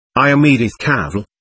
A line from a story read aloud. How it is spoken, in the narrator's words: said the voice